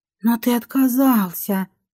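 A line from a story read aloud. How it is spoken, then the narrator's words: Realizing guess. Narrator (Russian): догадалась я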